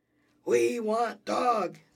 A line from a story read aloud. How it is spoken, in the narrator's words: they bellowed